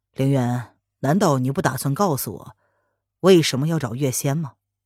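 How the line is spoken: Sudden question. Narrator (Chinese): 文燕…突然开口问

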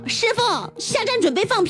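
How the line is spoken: Loud speech. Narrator (Chinese): 大声的说道

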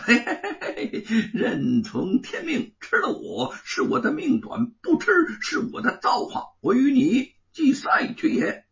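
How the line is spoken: Laughing. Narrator (Chinese): 行者笑道

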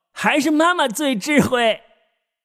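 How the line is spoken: Cheeky, grinning. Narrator (Chinese): 嬉皮笑脸道

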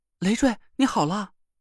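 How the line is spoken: Excited voice. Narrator (Chinese): 宁珂的声音很激动

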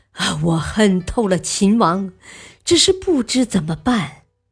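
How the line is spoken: Long sigh, tearful. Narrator (Chinese): 樊於期仰天长叹，流着泪说

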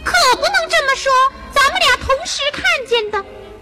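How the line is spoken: Mouse squealing. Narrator (Chinese): 第二只老鼠尖叫着

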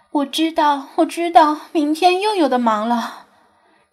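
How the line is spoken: Sighing. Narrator (Chinese): 鲁依云 叹气说道

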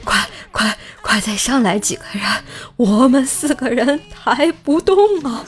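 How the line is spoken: Breathless, exhausted. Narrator (Chinese): 四个医护人员还没有从爬六楼的疲惫中缓过劲儿来，气喘吁吁地说

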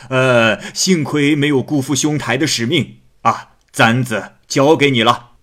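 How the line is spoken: Smiling. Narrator (Chinese): 那个人笑着说

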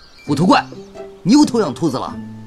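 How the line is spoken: Furious roar. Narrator (Chinese): 巨魔王怒火中烧 咆哮道

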